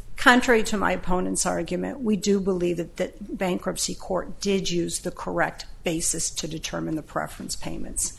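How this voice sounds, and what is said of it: Slightly scratchy, hoarse voice. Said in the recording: “My voice is a little scratchy today.”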